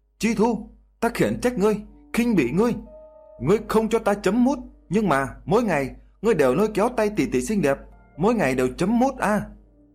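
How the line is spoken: Sudden loud shout. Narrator (Vietnamese): Tiểu Thái Tuế bỗng nhiên hét lớn

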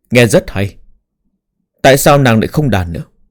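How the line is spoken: Smiling. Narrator (Vietnamese): Thương Kiến Hùng mỉm cười nói

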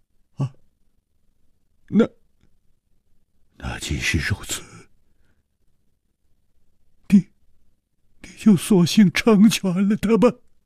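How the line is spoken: Hoarse, stunned. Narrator (Chinese): 李玉涵似乎也想不到，楚留香 他反而帮柳无眉说起话来， 愣了半天，哑声说

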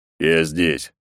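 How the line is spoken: Cold reply. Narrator (Russian): холодно ответил он

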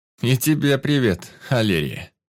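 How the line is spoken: Wry snort. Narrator (Russian): хмыкнул

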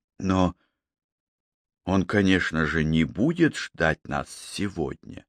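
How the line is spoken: Barely audible. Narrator (Russian): чуть слышно произнес

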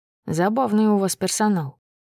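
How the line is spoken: Muttered. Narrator (Russian): пробормотал

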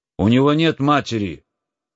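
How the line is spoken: Shouted. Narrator (Russian): крикнул он

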